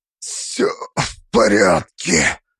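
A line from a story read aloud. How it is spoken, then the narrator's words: Rasped hoarsely. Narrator (Russian): прохрипел я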